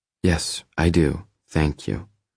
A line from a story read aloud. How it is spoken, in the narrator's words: she says quickly, in a more subdued tone